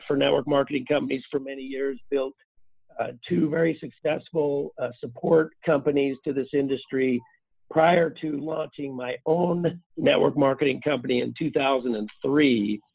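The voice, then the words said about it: Hoarse, nearly lost voice. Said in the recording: “I've got a really, really bad cold ... my voice is gone”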